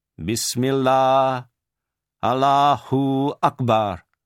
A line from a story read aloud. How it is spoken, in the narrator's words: saying in a loud voice so that the men could hear